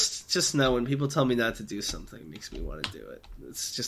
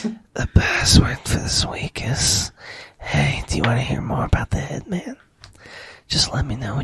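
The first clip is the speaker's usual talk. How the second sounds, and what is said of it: Whispering into the mic. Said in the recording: “Please stop the whispering. ... Was that a good whisper?”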